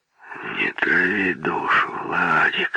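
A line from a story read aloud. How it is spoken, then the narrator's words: Quiet reply. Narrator (Russian): тихо ответил Муравьев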